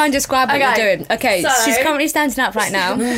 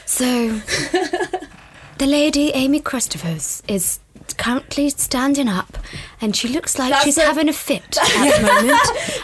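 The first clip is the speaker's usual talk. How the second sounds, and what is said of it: Nature documentary narrator impression. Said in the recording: “in a David Attenborough voice”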